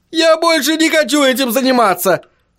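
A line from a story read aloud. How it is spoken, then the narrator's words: Yell. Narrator (Russian): завопил Чарли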